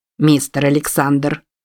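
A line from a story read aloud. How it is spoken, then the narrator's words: Very calm. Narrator (Russian): очень спокойно произнес Диксон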